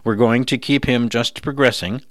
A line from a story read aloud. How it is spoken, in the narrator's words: Rogers said